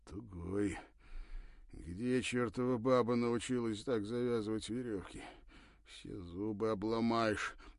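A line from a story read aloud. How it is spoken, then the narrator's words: Irritated muttering. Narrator (Russian): бормотал раздраженно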